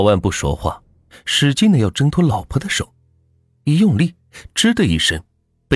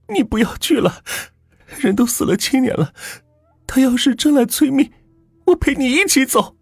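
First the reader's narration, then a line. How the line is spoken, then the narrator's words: Tearful wailing. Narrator (Chinese): 老万的老婆哭丧着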